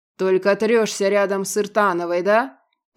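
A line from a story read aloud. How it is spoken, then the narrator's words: Predator's growl. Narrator (Russian): прорычал хищник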